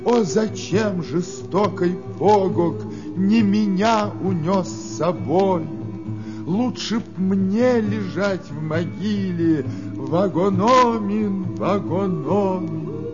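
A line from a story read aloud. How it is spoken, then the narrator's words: Prolonged wailing sobs. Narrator (Russian): Долго с криками рыдала, долго плакала Нокомис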